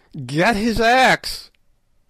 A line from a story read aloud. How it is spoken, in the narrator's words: yelled Good